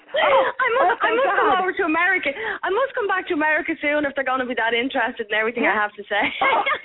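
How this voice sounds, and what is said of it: Speaks with a distinctive foreign accent. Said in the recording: “the accent is worth its weight and probably worth your weight in gold. It's fabulous.”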